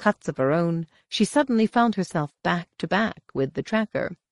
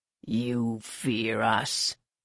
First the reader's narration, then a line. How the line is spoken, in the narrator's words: the tracker rasped